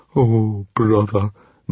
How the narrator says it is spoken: moaned Fishlegs

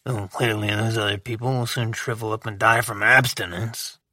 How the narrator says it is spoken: In a low grumble, he added

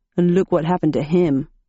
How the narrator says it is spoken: grunted

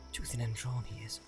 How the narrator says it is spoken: he muttered

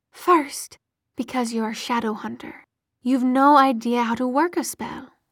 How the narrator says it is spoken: said calmly

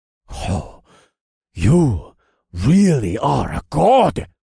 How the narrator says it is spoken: Chief Wombutu breathed from behind me

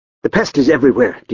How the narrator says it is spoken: Dietrich snapped

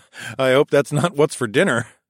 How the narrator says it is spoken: laughed

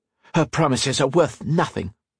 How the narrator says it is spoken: Octavia spat out

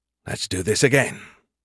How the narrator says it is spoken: added under his breath

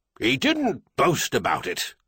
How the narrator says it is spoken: Clinton snapped back

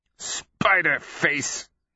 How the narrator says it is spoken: he grunts

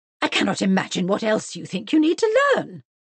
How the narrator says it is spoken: cried Mrs

